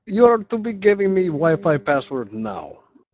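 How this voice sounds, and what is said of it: Put-on Russian accent. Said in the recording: “some big Russian dude just knocking on your door, going”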